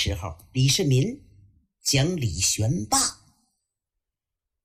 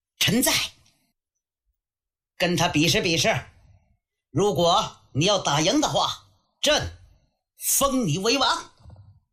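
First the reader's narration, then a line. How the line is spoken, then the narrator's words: Calling out. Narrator (Chinese): 杨广回头叫程都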